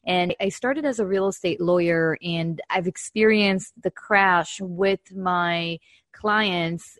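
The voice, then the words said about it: Israeli-accented English. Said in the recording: “I actually started my career back in 2007 in Israel, my accent.”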